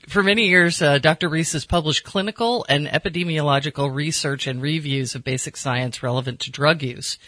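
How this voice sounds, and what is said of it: American accent. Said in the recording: “with my rotten American accent”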